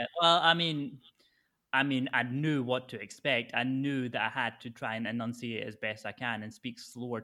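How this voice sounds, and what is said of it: Softened Scottish accent. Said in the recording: “Your accent is a lot more understandable than what mine's is... I've had to pull back all of the Scots in me”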